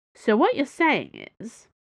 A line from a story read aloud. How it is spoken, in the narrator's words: she said calmly